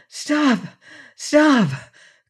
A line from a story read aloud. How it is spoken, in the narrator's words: cried the poor prince wildly